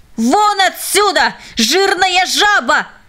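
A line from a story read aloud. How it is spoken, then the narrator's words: Hateful, contemptuous shout. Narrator (Russian): ненависть и презрение к этому человеку взяли верх, и он закричал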